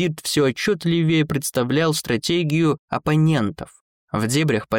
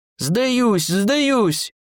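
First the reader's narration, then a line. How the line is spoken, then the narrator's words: Frightened shout. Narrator (Russian): прокричал серый дворф, не желая той же участи, что и его собрат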